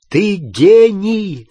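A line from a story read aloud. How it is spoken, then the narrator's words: Shouted. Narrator (Russian): закричал Гарри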